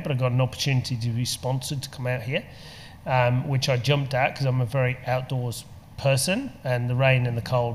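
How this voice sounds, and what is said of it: English accent. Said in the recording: “we can tell by your accent ... You're a POM ... English”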